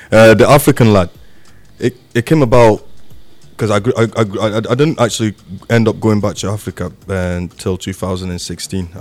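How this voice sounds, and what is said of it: English accent. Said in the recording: “I'm actually adopted by a white man. That's why I've got this accent. My mum kind of got married to an Englishman”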